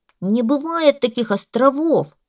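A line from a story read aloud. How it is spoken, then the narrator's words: Parrot screeching. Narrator (Russian): закричал попугай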